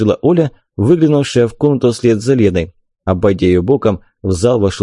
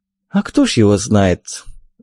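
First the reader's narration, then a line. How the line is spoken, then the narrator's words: Thoughtful drawl. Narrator (Russian): задумчиво протянула Лена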